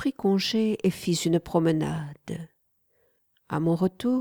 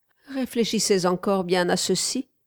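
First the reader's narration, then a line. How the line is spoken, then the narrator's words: Cheerful female voice. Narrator (French): commença-t-elle gaiement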